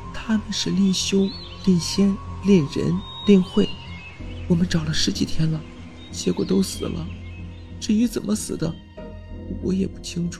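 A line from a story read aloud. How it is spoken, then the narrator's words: Quiet whisper. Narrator (Chinese): 令梦悄悄地说道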